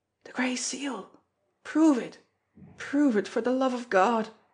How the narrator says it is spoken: he cried out wildly

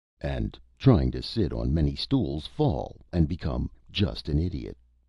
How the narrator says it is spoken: said Mr

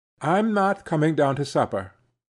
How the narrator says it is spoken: Zina called out from her seat

